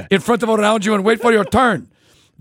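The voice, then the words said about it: Put-on Turkish / Eastern European accent. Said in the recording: “Can I do the same accent I do for Eastern Europe for this? ... Turkish? ... similar but different ... same accent ... it's more like Midnight Run kind of voice ... Midnight Express”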